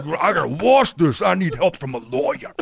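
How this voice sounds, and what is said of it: Michael Irvin impression, Tracy Morgan-like. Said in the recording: “I love that impression because it sounds like if Michael Irvin and Tracy Morgan had a baby.”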